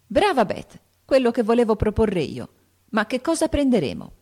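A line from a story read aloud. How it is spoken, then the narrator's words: Exclaimed. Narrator (Italian): esclamò Joe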